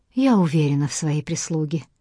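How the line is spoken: Forced calm. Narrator (Russian): спокойно, насколько могла, произнесла Эмили

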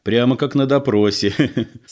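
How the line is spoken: Speaking with a small laugh. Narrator (Russian): сказал Егор и мелко посмеялся

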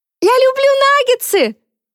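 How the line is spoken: Yelling. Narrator (Russian): завопил Генри

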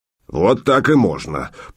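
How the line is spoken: Low male grumble. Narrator (Russian): проворчал мужской босок

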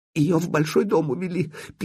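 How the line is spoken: Woman's squeak. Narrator (Russian): пискнула женщина

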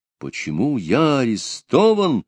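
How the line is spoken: Exclamation. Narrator (Russian): воскликнул Пугачев

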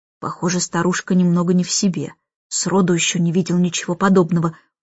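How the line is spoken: Muttered. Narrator (Russian): пробормотал таксист

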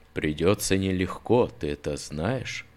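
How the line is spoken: Young man's whisper. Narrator (Russian): прошептал юноша

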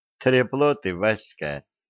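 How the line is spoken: Tired female voice. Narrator (Russian): устало сказала Янка

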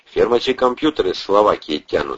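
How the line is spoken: Calm. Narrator (Russian): спокойно продолжал Атасов

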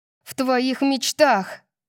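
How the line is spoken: Snapping back. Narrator (Russian): Огрызнулась Дарси

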